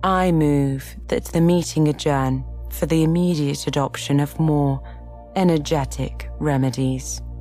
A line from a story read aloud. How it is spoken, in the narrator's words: said the dodo, solemnly